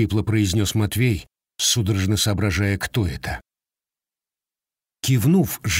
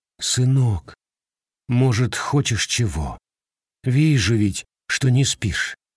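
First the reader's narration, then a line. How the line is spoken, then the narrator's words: Quiet, pitying question. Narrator (Russian): с какой-то жалостью, она вздохнула и, покачав головой, тихо спросила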